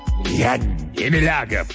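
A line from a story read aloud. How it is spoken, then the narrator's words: Growling. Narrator (Russian): прорычал профессор Мейер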